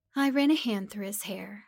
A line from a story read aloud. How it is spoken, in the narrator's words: I said